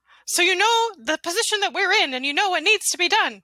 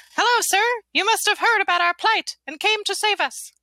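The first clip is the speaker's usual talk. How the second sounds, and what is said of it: Character voice, not deep. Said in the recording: “But he still doesn't have a deep voice because he's a gingerbread man.”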